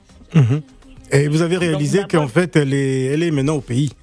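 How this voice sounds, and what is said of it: Put-on accent. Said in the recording (French): “C'est quel accent tu prends là? ... moi, je prends l'accent que je veux.”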